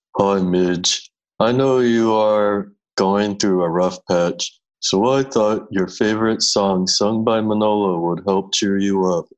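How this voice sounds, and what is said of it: Imitates another person's voice. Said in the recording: “your best Christina impression”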